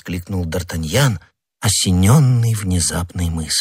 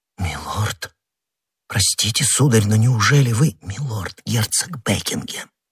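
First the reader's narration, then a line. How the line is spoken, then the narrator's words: Undertone. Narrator (Russian): вполголоса проговорила госпожа Бонасье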